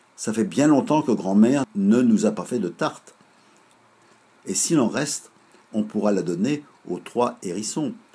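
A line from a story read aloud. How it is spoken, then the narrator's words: Plain. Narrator (French): demanda Lisou-Bisou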